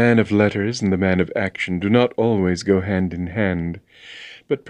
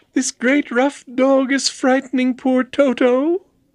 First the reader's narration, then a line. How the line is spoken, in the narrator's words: cried the girl